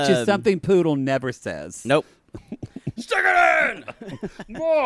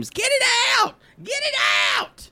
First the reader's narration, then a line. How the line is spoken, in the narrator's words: she screams